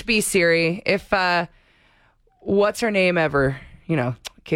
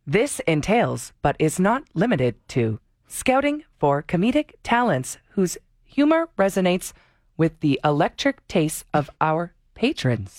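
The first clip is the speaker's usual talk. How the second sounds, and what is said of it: Imitates a voice-assistant voice. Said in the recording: “with my Siri impression.”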